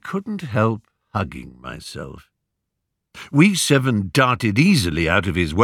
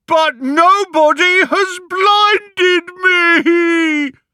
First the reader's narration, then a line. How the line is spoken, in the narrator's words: sobbed